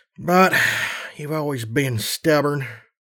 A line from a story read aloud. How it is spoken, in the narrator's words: he sighed